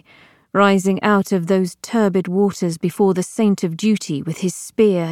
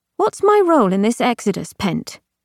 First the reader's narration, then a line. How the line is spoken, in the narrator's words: With rising agitation that she could not quite quell, Harrow found herself asking curtly